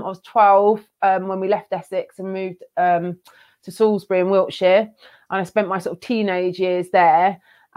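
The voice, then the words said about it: Slight Essex twang. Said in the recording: “You haven't got a Brummie accent ... I think that's where the kind of twang comes from”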